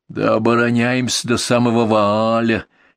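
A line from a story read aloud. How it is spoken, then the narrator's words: Young man grumbling discontentedly. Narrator (Russian): недовольно пробурчал какой-то молодой бур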